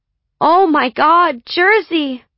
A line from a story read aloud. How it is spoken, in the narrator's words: she cried